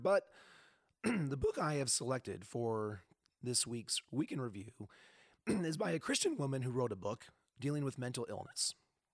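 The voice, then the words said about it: Hoarse, strained voice. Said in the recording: “my voice is a little shot ... It might be a little bit difficult to listen to me”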